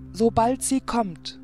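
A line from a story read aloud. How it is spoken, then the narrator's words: Calling out. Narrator (German): rief er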